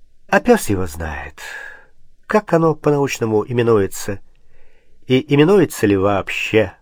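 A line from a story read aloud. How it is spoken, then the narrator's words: Almost normal voice. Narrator (Russian): сказал почти нормальным голосом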